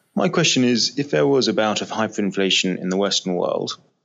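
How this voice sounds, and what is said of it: Distinctive regional accent. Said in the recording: “what a great accent.”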